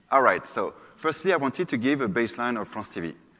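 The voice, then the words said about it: French accent. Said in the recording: “get ready for the French accent.”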